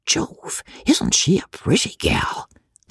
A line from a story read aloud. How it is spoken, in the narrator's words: Young Stubble kept whispering